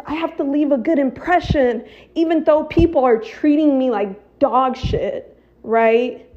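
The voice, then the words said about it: Frustrated, exasperated tone. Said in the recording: “I know I sound frustrated because I am”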